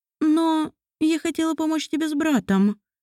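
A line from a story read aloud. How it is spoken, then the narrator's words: Uncertain voice. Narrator (Russian): неуверенно произнесла Мариэль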